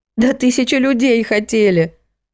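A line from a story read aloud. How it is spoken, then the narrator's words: Sobbing. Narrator (Russian): всхлипнула Антонина Матвеевна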